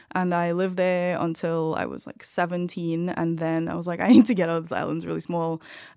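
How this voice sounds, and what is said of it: Distinctive non-American accent. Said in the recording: “your accent ... why do you sound like you're Welsh? ... I grew up in Trinidad”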